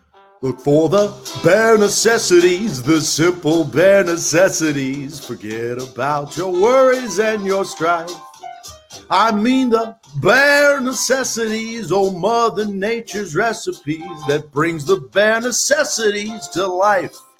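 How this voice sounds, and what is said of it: Singing in falsetto. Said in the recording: “I got to get my falsetto”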